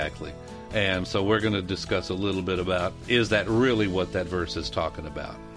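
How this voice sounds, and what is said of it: Usual voice. Nothing is said of it.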